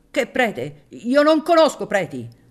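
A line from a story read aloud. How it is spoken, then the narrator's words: Exaggerated shout. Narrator (Italian): gridò, esagerando la voce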